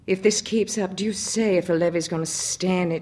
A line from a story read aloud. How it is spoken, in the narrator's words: she exclaimed